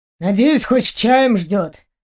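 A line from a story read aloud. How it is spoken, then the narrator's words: Grumbling. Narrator (Russian): проворчал он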